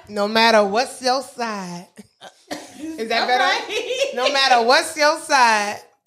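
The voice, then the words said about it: Slight put-on Southern accent. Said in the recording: “You had a little southern accent with that.”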